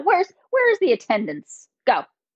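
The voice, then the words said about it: Stern scolding mom voice. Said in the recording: “my mom voice come out”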